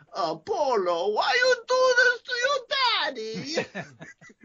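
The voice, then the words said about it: Imitated foreign accent, imitates another person's voice. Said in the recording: “That's a good accent, actually. ... That is exactly the accent. ... I've done that one like 100% on the mark.”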